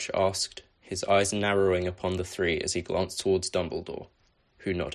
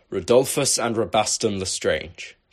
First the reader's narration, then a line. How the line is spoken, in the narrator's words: thundered